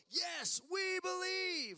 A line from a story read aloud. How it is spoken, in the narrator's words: the crowd yelled